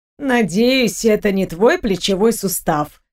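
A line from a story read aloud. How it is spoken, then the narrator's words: Grumbling. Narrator (Russian): проворчала Розевский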